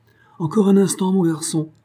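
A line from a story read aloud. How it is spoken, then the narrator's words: Exclaimed with sudden energy. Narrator (French): s'écria Jim avec une soudaine énergie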